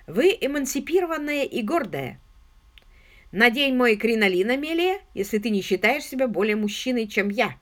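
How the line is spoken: Laughing. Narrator (Russian): Пенни рассмеялась

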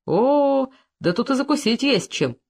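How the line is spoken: Cheerful. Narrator (Russian): весело сказал Коньков

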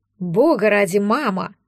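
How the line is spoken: Irritated reply. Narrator (Russian): раздраженно ответил барон Фриш

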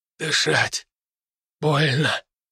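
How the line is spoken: Hoarse wheeze. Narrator (Russian): прохрипел один из солдат

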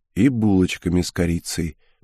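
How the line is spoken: Muttered. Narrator (Russian): пробормотал я

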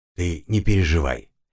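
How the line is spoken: Soft, gentle. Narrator (Russian): мягко произнес я

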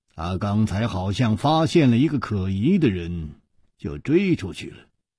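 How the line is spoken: Calm, indifferent. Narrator (Chinese): 楚留香淡淡地说

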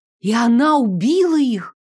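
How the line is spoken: Breathless, thrilled horror. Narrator (Russian): С восторженным ужасом выдохнула я

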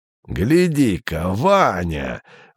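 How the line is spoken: Exclamation. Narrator (Russian): воскликнул дядя Юра

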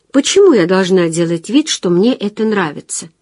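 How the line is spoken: Plain. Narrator (Russian): спросила она

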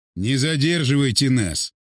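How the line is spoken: Irritated man. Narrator (Russian): раздраженно сказал он

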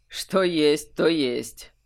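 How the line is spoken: Snort. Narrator (Russian): хмыкнул Олег

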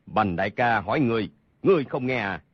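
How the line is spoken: Loud shout. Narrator (Vietnamese): Hầu Thông Hải lớn tiếng quát

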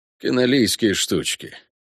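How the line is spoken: Mumbled, half-numb tongue. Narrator (Russian): пробормотал наполовину онемевший язык виконта

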